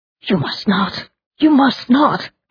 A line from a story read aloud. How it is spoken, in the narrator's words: cried Richter